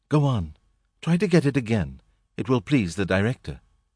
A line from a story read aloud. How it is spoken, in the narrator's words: from a third direction, more sweetly